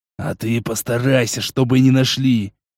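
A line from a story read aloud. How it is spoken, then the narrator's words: Hissing overseer. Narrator (Russian): прошипел смотрящий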